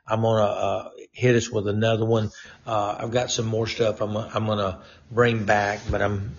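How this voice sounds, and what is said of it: Strained, fading hoarse voice. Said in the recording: “losing my voice”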